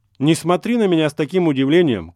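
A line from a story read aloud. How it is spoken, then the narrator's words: Shouting officer. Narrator (Russian): крикнул майор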